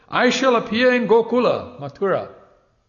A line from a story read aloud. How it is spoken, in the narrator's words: A certain young boy called out in a loud voice